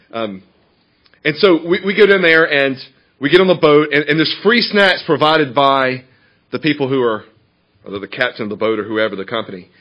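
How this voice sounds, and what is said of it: Southern Georgia accent. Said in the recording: “I grew up in Georgia, hence that incredible accent you're hearing.”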